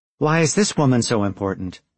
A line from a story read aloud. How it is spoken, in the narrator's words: sighed